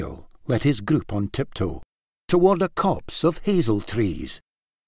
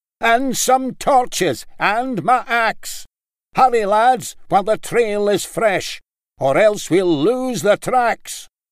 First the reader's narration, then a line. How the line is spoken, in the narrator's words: boomed Laird Maclay